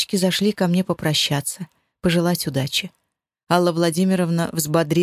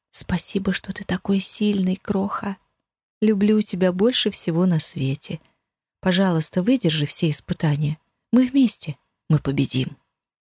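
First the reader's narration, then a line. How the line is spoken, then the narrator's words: Quiet whisper. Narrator (Russian): тихо прошептала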